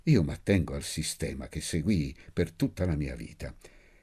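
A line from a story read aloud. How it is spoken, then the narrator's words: Offended murmur. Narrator (Italian): L'olivi, offeso, mormorò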